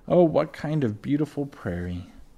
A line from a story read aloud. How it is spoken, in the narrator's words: Mary sighed with the happiness